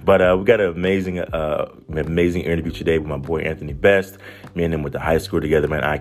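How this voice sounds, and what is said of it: Hoarse, sick-sounding voice. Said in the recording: “I've been under the weather ... you guys can probably hear a little bit of my voice ... my voice is a little gone”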